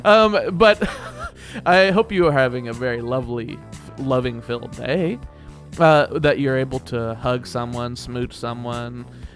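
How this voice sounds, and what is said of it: Soft, smooth, velvety voice. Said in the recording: “the way that I talk to you in this velveteen voice.”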